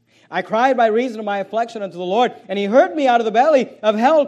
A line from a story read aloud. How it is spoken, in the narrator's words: cried I